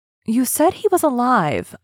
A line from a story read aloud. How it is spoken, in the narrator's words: I exclaimed